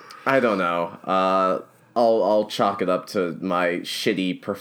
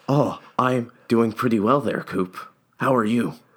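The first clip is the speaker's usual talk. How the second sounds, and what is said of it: Affected put-on character voice. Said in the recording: “I don't know why I'm doing this voice. ... I feel like I'm halfway between Adam West and Jeff Goldblum.”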